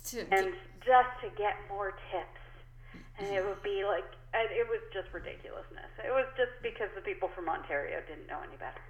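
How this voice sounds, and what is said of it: Rural Canadian Maritime accent. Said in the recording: “I'm pretty sure that I just have a rural maritime accent ... This is the accent.”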